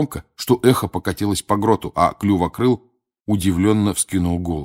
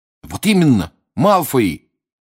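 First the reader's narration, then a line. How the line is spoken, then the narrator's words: Sudden exclamation. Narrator (Russian): воскликнул вдруг Рон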